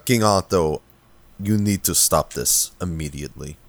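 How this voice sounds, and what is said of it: Intimidating character voice. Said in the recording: “in a very intimidating voice”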